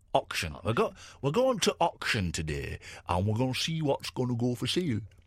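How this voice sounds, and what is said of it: Put-on northern English accent. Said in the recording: “I think that's a northern thing. They say auction instead of auction ... it started off being northern”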